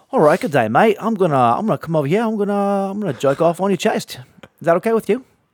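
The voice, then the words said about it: Unconvincing put-on Australian accent. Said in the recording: “when you're trying to do an Aussie accent, it doesn't work”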